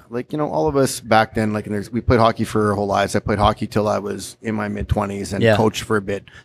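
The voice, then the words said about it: Canadian accent. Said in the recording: “We can tell by the accent ... that you're not from here. You are originally from Canada? ... From Winnipeg.”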